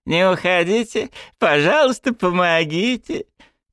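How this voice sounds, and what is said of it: Mocking, grimacing mimicry of a plea. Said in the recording (Russian): “Кривляясь, передразнил ее”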